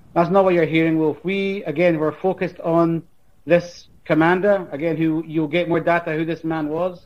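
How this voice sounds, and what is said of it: Scottish accent. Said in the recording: “Motherfucker's Scottish, bro ... At first, I thought he had an Israeli accent of sorts that I had never heard”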